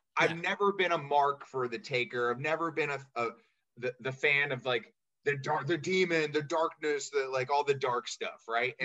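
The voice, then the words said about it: Choked-up, emotional voice. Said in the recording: “I'm getting a little choked up here.”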